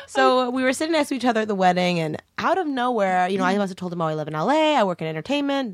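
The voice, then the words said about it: South African accent. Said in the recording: “I like your accent... I'm South African”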